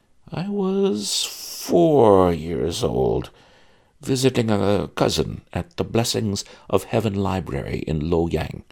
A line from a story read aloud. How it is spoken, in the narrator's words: he said, slowly and hesitantly